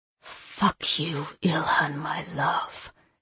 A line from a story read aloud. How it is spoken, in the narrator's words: she murmured, her voice low and bitter